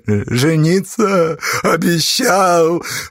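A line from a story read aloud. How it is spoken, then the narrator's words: Girl sobbing. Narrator (Russian): разрыдалась девка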